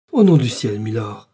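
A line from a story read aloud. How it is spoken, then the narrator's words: Exclaiming. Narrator (French): s'écria Madame Bonacieux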